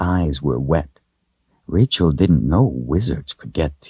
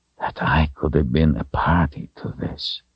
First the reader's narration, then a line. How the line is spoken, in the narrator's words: he whispered